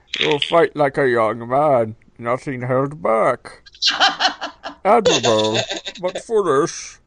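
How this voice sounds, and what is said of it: Bane impression. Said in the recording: “your Bane impression”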